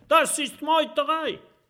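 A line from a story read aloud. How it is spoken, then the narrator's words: Screaming. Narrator (German): Der schlimme Jim schreit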